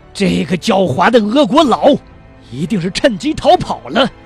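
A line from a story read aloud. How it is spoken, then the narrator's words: Through gritted teeth. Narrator (Chinese): 李斯中校也咬牙切齿地说道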